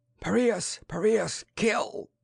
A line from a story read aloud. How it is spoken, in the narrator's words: The Irene howled